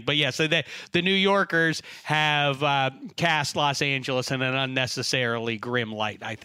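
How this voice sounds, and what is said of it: New York accent. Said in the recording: “You still talk like that? Really? ... Never able to shake the accent ... I don't sound like this”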